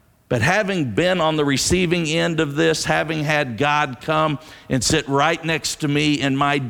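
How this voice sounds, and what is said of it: Usual voice. Nothing is said of it.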